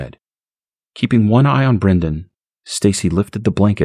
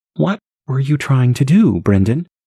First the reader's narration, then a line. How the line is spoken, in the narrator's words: Her voice shook